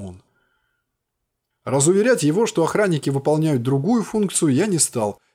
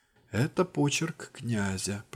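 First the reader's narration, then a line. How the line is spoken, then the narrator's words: Whispering. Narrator (Russian): прошептал Акин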